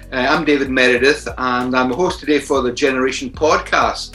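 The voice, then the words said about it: Scottish accent. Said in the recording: “maybe a Scottish accent”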